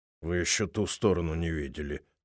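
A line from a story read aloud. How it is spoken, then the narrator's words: Grumbled. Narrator (Russian): проворчал Бойс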